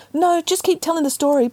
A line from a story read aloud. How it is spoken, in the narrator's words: pleaded Peter